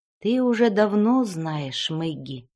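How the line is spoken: Sad voice. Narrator (Russian): печальным голосом проговорила мама

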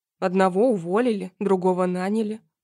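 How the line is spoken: Snorting. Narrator (Russian): хмыкнул тот

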